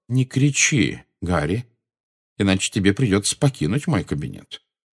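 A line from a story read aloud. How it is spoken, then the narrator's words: Calm speech. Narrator (Russian): спокойно произнес Дамблдор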